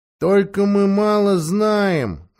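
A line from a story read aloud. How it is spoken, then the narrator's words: Slightly nasal horse voice. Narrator (Russian): раздался немного гнусавый голос, это сказала лошадь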